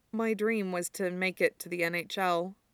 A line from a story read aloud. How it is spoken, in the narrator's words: Yuri said quietly, like Victor had